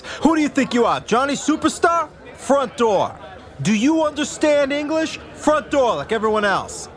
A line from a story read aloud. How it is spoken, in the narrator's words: Bill Graham, the consummate curmudgeon host, shouting at guests